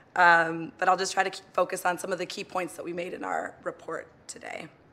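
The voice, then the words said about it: Strained, fading voice. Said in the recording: “I'm losing my voice a little bit”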